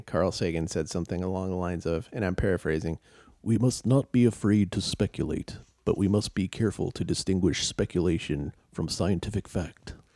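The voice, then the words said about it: Imitates another person's voice. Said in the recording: “Here's my Sagan impression.”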